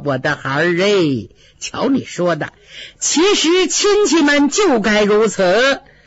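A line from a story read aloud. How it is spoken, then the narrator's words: Old woman, smiling. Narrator (Chinese): 老太太 笑着说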